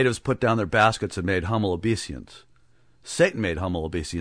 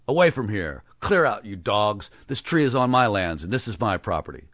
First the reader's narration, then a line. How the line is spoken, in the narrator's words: a foreigner exclaimed angrily